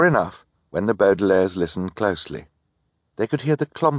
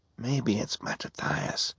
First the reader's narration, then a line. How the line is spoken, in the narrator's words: Klaus whispered